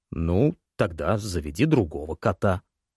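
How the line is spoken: Grumbled. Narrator (Russian): буркнул Джанус

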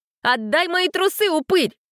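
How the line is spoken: Sudden yell. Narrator (Russian): Вдруг завопила Синицына

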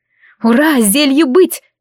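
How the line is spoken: Triumphant exclamation. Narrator (Russian): воскликнула я, победно выпрямив руку

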